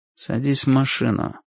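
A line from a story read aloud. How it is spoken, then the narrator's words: Quiet menacing words. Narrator (Russian): тихо промолвил тип с пистолетом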